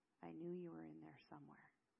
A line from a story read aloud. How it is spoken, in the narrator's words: Zale whisper